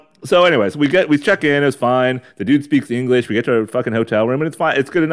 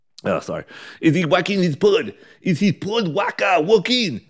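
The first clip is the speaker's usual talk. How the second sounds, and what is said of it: Put-on French accent drifting Russian. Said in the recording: “What the fuck's a French? ... I'm getting the accent. ... So I'm going Russian again.”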